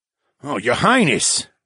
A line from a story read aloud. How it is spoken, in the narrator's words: Troy gasped